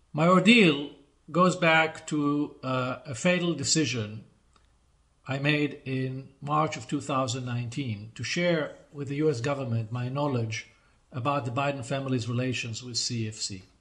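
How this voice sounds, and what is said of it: Accented English. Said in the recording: “It's got an accent, sounds like CFC.”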